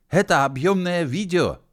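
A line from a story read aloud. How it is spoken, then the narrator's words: Shouting. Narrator (Russian): крикнул он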